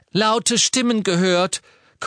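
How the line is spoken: Gasping. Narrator (German): keuchte Mrs

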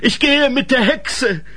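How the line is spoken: Calling through a gap. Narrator (German): rief durch den Spalt

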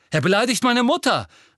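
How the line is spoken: Calling out. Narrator (German): rief Seamus

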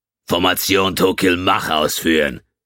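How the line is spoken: Barked command. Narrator (German): bellte Kutal

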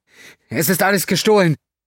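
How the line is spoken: Woman calling out. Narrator (German): Vom Altar aus rief die Frau

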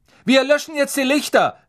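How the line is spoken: Calling out. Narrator (German): rief Percy

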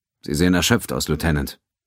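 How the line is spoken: Plain. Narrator (German): sagte er

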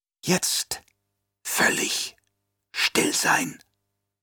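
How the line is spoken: Whisper. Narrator (German): flüsterte der Fremen

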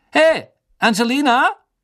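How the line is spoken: Called across the room. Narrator (German): Er rief durch den Gemeinschaftsraum

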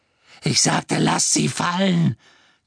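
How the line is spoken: Shrieking. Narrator (German): kreischte Bellatrix

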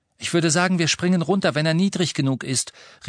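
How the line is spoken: Calling back to others. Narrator (German): rief Harry nach hinten den anderen zu

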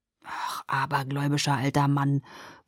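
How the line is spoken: Grumbling to himself. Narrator (German): brummelte Jacob vor sich hin

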